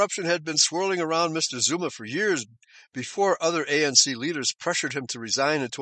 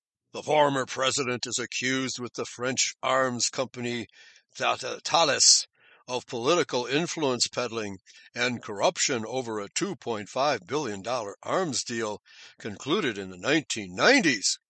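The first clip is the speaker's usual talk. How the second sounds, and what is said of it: Serious newsreader-style voice. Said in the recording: “I'll put on my serious BBC, I won't try to do a British accent. I'll just put on a serious accent.”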